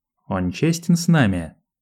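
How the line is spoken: Plain. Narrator (Russian): спросил Айдахо

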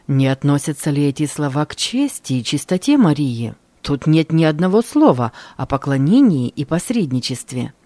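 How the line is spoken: Plain. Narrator (Russian): ответил Цвингли

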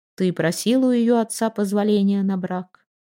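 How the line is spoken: Level-voiced question. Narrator (Russian): ровным голосом осведомился Торбранд

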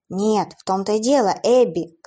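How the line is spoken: Furious shout. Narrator (Russian): крикнул яростно Уилл

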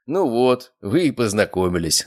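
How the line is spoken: Laughing. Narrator (Russian): рассмеялся я

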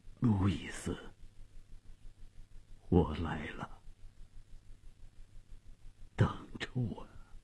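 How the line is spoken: Trembling faint voice. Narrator (Chinese): 费迪南用颤抖而微弱的声音说

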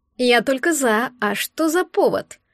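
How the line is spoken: Sleepy girl's reply. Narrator (Russian): Сонно отозвалась девушка

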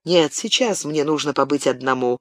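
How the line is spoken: Firm, unyielding objection. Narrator (Russian): непреклонным тоном возразил Габриэль

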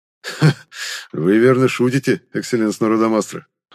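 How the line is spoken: Chuckling. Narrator (Russian): хохотнул патриарх

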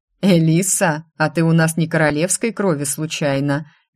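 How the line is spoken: Nervous chuckle. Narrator (Russian): нервно хохотнул Марко

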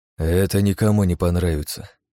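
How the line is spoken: Sighed. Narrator (Russian): я вздохнула

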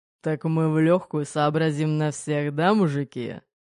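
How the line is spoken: Smirking. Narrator (Russian): хмыкнул Пегов

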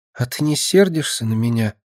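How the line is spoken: Quiet question. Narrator (Russian): тихо спросила

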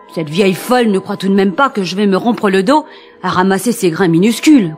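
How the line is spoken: Grumbling. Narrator (French): grogna Henri

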